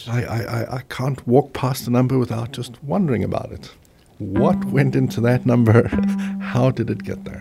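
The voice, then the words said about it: Heavy South African accent. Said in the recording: “He has a really heavy ... accent ... South African, yes.”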